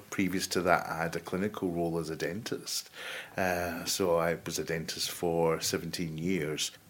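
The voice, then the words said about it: Glaswegian Scottish accent. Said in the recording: “I was born in Glasgow, as you can probably tell from the accent.”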